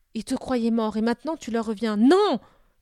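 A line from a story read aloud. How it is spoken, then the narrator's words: Angry, pained scream. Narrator (French): Eneda avait hurlé de colère, de douleur, il rugit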